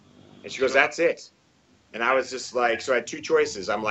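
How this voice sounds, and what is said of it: Usual voice. Nothing is said of it.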